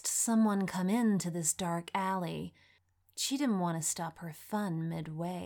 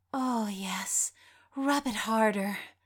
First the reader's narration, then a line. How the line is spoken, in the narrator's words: Sophia moaned